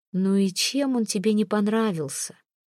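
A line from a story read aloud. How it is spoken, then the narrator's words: Sighing. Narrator (Russian): вздохнул посланец любимого дедушки всех российских детей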